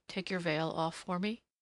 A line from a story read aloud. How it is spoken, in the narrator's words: said softly